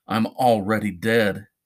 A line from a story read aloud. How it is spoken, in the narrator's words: said, and choked back the tears